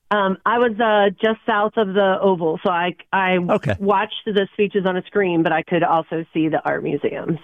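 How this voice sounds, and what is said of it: Hoarse, worn-out voice. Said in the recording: “my voice is a little shot”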